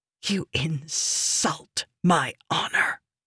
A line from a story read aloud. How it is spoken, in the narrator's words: she hissed